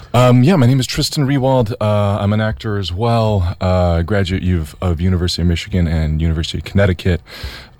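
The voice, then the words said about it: Deep baritone radio voice. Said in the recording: “That's a nice radio voice right there. ... A little baritone.”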